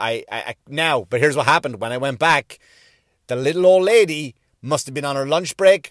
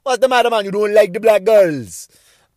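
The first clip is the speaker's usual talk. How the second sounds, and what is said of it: Put-on Jamaican accent. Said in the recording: “That's my best Jamaican accent.”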